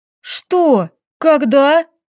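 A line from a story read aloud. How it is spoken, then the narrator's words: Furious hissing bark. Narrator (Russian): Зашипев бешеной кошкой, рявкнула Лилька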